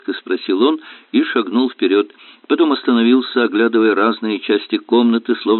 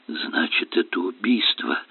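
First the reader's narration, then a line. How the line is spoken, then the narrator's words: Weak questioning mutter. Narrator (Russian): пробормотал Осборн слабым голосом, в котором прозвучал оттенок вопроса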